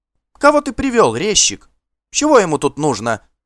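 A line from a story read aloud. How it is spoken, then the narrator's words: Sharp shout. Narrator (Russian): прикрикнула она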